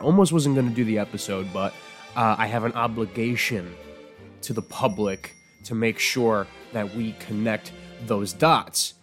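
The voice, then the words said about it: Sick, under-the-weather voice. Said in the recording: “you can hear it in my voice. I'm a little bit under the weather.”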